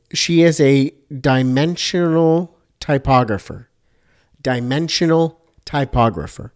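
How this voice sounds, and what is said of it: Slow, deliberate speech. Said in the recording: “I'll say this slowly.”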